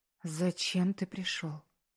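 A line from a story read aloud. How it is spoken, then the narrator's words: Choked whisper. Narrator (Russian): сдавленно прошептала она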